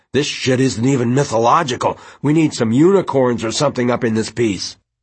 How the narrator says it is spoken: Josh complained through clenched teeth

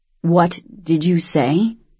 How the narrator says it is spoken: He asked slowly

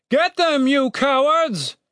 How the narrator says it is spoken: shouted Captain Righteous

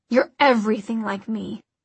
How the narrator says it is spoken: he growled into her ear

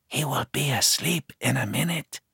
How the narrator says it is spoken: she whispers

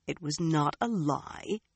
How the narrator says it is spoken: she muttered

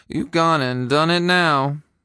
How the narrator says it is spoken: Gary muttered

